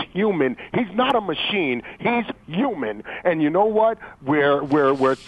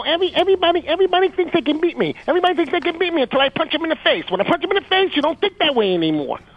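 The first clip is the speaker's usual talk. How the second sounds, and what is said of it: Mike Tyson impression. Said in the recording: “In your best Mike Tyson voice.”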